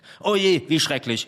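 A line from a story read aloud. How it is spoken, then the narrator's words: Called out. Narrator (German): rief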